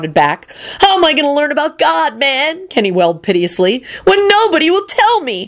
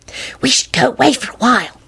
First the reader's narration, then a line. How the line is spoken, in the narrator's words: Solange hissed conspiratorially to Quentin